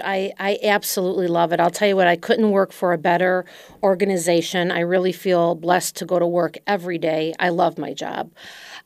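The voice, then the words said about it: Slight Chicago accent. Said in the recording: “you have a slight Chicago accent.”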